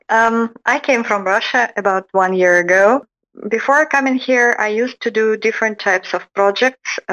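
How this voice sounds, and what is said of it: Non-Texan accent. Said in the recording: “You don't have much of a Texas accent.”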